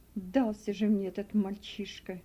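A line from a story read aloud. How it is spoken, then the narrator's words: Muttering. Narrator (Russian): пробормотал работорговец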